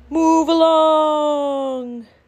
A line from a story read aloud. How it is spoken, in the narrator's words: a horn that bellowed